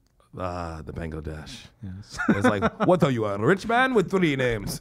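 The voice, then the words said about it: Put-on Bengali accent. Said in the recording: “That was the perfect Bengali accent.”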